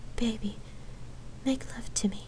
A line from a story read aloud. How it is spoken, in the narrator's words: Lark pleaded in a whisper